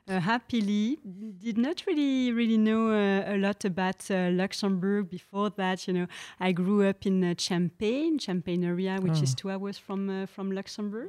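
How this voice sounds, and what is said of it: French accent. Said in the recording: “from my accent, I think that some of you would know that I'm French”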